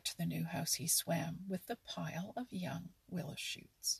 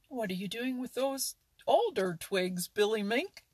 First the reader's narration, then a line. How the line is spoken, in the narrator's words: cried Jerry